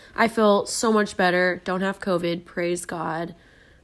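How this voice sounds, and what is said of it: Low, husky voice from illness. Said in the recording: “my voice sounds weird ... Katie is sick ... it's now affected my vocal cords, and I kind of have a more masculine voice right now”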